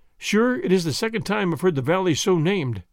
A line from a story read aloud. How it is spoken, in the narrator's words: said he